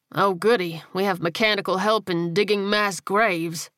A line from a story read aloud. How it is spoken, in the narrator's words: Rogers said dryly